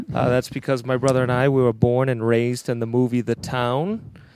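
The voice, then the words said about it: Slight Boston accent. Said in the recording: “you're going to detect a hint of an accent from us ... the name of that town is Charlestown, Massachusetts”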